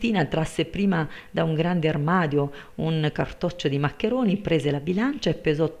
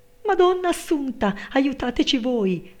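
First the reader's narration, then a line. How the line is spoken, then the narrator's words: Servant shrieking. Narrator (Italian): strillò la serva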